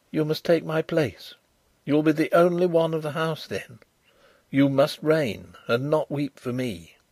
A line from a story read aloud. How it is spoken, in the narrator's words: I whispered